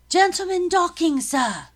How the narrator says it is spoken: cried a soldier

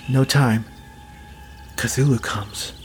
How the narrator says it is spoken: she whispered in a thin voice

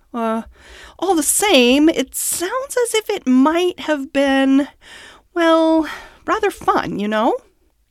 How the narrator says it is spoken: he added wistfully

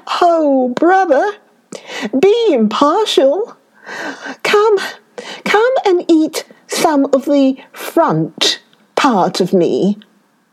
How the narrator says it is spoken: the lion cried

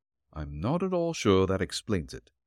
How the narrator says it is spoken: Nick replied dryly

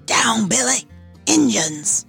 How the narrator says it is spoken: Reese called to the captain in a loud whisper

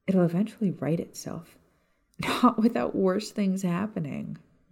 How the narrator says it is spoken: Maya sighed, thinking of the next few years and how awful things were about to get

